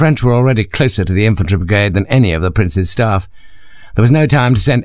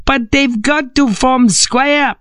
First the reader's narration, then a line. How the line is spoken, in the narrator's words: screamed like a spoilt child